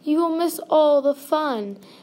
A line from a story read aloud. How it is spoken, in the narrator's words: cried Frog